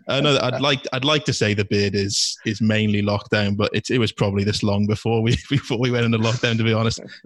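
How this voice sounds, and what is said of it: Welsh Cardiff accent. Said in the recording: “That's the Cardiff accent”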